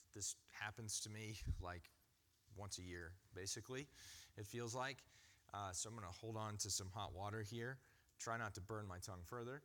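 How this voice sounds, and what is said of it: Voice not at full strength. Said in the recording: “my voice is not 100%”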